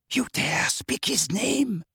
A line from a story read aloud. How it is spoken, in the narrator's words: whispered Bellatrix